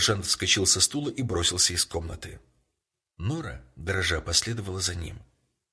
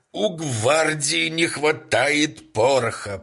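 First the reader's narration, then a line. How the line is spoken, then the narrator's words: Booming voice. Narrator (Russian): прогремел еще раз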